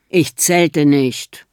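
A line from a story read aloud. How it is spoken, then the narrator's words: Growling. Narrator (German): knurrt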